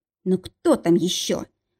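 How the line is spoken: Irritated. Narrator (Russian): раздраженно спросила Марина

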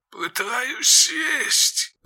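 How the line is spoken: Creaky voice over headphones. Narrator (Russian): проскрипело в наушниках

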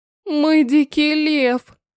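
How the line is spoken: Moaning. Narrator (Russian): Простонала она

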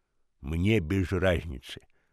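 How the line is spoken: Grumbling. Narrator (Russian): проворчал Хамфри

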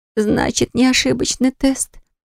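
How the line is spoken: Moaning. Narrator (Russian): простонала она

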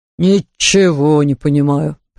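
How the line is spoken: Grumble. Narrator (Russian): проворчал он

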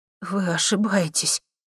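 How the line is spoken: Trembling objection. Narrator (Russian): дрожащим голосом возразила ему Таня

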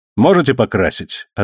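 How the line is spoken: Curt. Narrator (Russian): отрывисто бросил он

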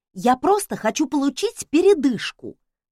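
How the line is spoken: Exclaiming. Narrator (Russian): воскликнула я

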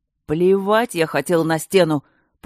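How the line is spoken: Bear roaring. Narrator (Russian): проревел ее медведь

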